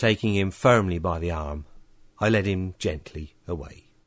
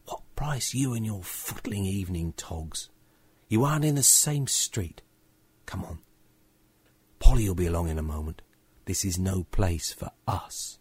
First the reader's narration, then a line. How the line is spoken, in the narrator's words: I hissed to George